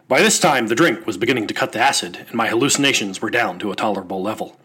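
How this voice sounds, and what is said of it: Hunter S. Thompson impression. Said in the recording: “my Hunter Thompson impression”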